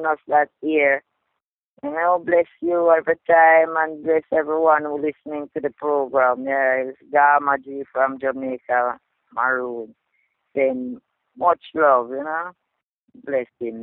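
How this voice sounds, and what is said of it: Strong accent, hard to understand. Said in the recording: “If you had difficulty with her accent, listen to it again, and you'll really get it.”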